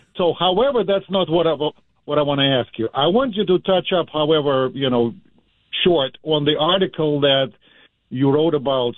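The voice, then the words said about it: Portuguese-Russian accent. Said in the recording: “You'll know me by my accent ... It would be obvious ... It's a Portuguese-Russian accent.”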